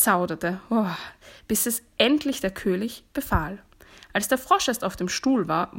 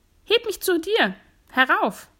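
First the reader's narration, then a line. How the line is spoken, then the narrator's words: Called out. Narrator (German): rief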